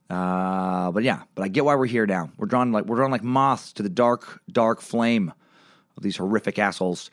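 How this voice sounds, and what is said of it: Strained, worn-out voice. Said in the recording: “my voice is a little off today ... I had a lot of late nights this last weekend ... my voice is a little bit shot.”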